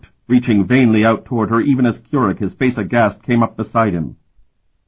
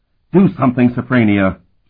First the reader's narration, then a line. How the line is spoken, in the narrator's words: Keurig pleaded